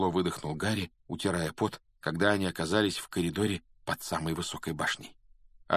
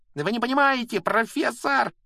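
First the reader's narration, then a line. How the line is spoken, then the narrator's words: Shrieking. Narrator (Russian): визжал Малфой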